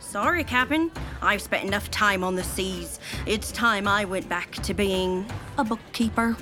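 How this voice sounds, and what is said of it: Pirate accent. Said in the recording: “you've kept your pirate accent”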